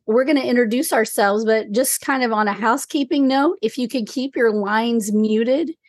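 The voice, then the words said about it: Weak, strained sick-sounding voice. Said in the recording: “I have just this much voice... the weird voice, but I don't feel as bad as I sound... It's just a little cold.”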